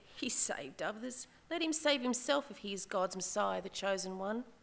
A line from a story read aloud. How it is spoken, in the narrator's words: the rulers even sneered at him, and they said